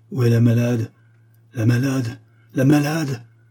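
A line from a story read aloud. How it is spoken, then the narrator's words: Laughing and crying exclamation. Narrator (French): s'écria Abogin, qui riait et pleurait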